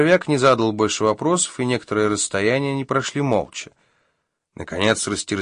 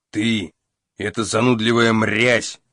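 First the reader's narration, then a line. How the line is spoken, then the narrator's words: Barked. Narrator (Russian): рявкнул он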